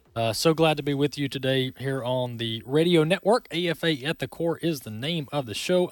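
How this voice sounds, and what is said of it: Deep Southern American accent. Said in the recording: “A lot of folks tell me I have a deep Southern accent”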